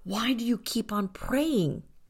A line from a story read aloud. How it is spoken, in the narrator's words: asked urgently